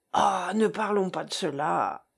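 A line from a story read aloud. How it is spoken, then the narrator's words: Sighing. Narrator (French): soupira Jean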